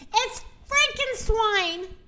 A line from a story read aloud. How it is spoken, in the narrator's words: screamed the rooster